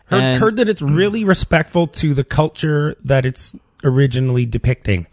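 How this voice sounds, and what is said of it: Sarcastic tone. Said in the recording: “is that sarcastic? ... that was sarcasm.”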